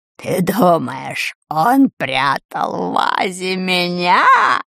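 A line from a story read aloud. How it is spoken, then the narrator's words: Old woman cackling wildly. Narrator (Russian): Отвратительная старуха так расхохоталась, что едва не потеряла голову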